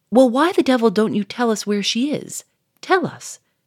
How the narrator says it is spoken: cried Monsieur Fourmery, purple with exasperation

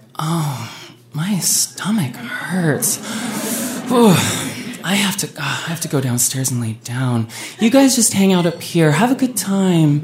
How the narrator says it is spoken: Heather, within a matter of minutes, groaned

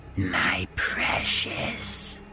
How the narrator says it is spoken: She'd hissed

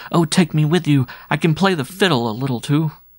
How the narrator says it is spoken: the boy cried

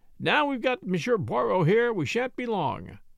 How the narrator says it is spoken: said cheerfully

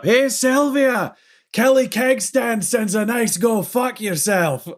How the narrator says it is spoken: yells up

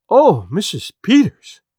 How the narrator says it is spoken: she cried

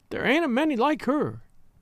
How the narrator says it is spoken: sobbed Alice

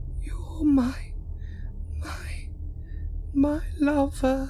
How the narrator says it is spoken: she groaned

